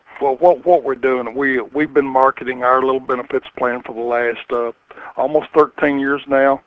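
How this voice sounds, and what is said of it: Kentucky accent, congested voice from cold. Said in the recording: “I think my voice probably gave me away, then, even though I have a cold. ... I'm just getting over the flu.”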